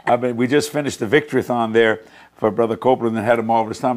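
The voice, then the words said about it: Slightly hoarse voice. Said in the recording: “If I sound a little hoarse, I've been talking for 24 ... hours.”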